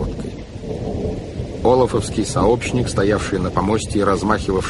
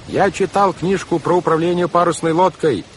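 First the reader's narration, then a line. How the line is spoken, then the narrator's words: Yelling over a storm. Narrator (Russian): заорал Клаус, стараясь перекричать вой урагана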